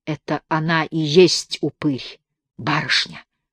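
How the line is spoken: Distant whisper. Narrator (Russian): прошептал кто-то от окна

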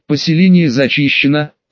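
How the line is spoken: Tired exhale. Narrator (Russian): устало выдохнул Дамир

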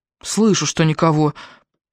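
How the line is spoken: Grumbling. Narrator (Russian): проворчала Джорджина

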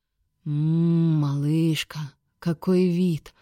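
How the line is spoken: Delighted purr. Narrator (Russian): восторженно мурлыкнул Шейн

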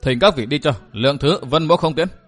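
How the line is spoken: Cold. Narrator (Vietnamese): Lạnh lùng, Vân Thiên Nhạc nói

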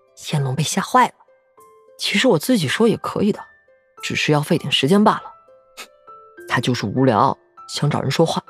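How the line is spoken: Quiet. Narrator (Chinese): 他 小声告诉萧景琰

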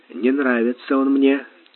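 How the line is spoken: Soft quiet speech. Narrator (Russian): тихонько сказал Сварог

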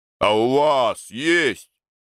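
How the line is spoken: Growled. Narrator (Russian): зарычал Семен

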